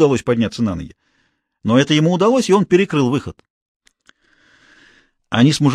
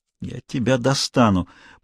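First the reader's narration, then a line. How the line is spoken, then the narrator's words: Muttered. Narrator (Russian): пробормотал Гуров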